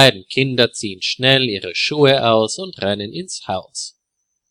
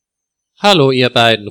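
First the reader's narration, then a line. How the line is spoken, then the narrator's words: Called out. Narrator (German): ruft er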